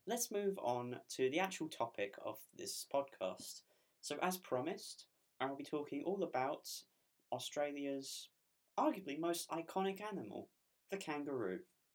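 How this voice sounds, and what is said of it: Slightly off voice from cold. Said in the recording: “I've got a bit of a cold, so if my throat sounds a bit weird”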